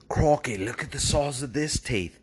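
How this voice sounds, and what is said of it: Impression of the Crocodile Hunter. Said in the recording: “the croc hunter ... How's my impersonation?”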